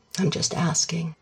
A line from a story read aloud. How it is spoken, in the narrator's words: says his dad gently